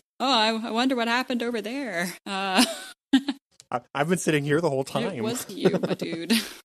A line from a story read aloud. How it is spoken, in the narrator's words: Kevin kind of nervously says